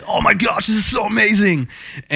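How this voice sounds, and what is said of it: Imitates another person's voice. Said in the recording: “good impression.”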